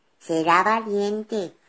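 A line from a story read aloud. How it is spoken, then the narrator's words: Plain. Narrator (Spanish): dijo la oveja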